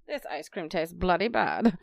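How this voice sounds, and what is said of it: Put-on British accent. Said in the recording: “Why do you have that accent? ... I wanted to say bloody and it sounded like it should be a British thing.”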